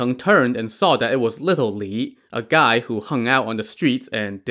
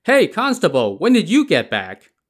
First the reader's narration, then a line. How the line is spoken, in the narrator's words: someone called out from behind